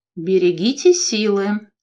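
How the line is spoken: Calm, thoughtful advice. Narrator (Russian): все так же спокойно, задумчиво посоветовал Аджим

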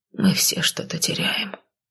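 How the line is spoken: Whisper. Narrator (Russian): шепнул друг

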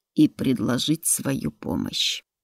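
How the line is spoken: Clear speech, drawn-out growling sounds. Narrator (Russian): Говорил он чисто, разве что звуки порой растягивал, да иные получались рычащими, раскатистыми

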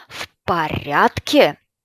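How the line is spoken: Father's roar. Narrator (Russian): взревел отец

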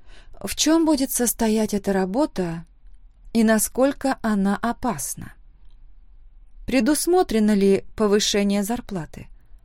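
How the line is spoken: Plain question. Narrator (Russian): спросила

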